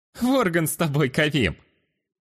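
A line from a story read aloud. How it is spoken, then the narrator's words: Chuckled. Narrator (Russian): хохотнул я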